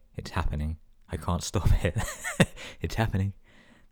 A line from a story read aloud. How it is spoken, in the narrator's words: said calmly